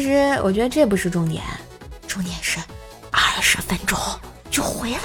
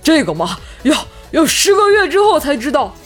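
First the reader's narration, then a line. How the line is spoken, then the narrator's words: Out of breath. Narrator (Chinese): 大黄气喘吁吁的说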